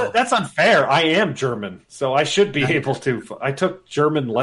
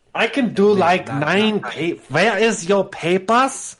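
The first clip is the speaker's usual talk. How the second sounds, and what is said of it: Put-on German accent. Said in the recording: “German accent's tough ... That was pretty damn good.”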